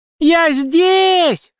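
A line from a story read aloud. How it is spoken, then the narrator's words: Desperate full-lung scream. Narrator (Russian): сразу же истошным голосом закричала Мэгги во всю силу легких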